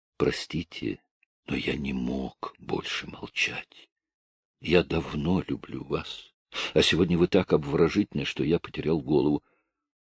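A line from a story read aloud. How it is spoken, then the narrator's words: Whisper. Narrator (Russian): Он прошептал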